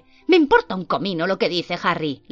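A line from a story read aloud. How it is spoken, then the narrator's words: Snapped retort. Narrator (Spanish): le espeté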